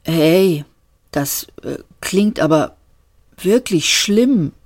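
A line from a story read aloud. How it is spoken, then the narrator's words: Stammering. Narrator (German): stammelte Seyfert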